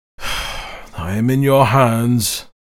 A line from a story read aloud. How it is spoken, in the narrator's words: sighed the brigand